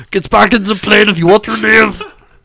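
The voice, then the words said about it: Arnold Schwarzenegger impression. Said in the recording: “as an Arnold impression”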